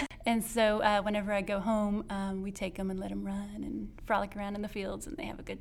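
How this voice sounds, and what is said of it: Rural country accent. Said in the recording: “I'm from the country, if you can't tell by my accent.”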